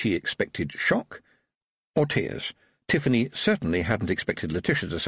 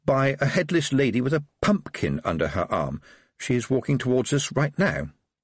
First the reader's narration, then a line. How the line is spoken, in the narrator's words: said Tiffany, trying to keep her voice matter-of-fact